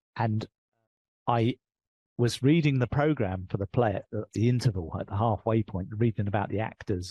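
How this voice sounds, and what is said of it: English accent. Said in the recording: “I'm British. I've got an English accent.”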